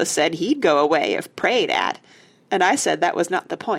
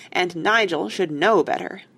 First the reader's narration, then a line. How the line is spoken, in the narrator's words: said Joe sternly